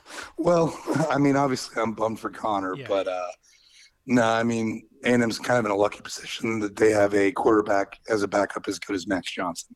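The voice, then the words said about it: Slightly hoarse voice. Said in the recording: “my voice is a little bit hoarser than usual. Playing hurt today.”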